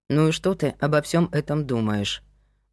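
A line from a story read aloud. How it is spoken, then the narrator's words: Gloomy question. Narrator (Russian): мрачно спросил Павел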